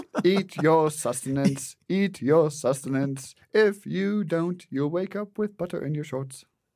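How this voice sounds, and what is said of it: Put-on Monty Python style accent. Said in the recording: “Where'd this accent come from? ... Monty Python accent”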